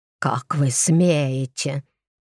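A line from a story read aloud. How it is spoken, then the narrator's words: Hissed. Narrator (Russian): прошипел он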